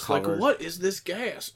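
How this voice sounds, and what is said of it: Character voice with southern accent. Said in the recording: “I gave her a southern accent”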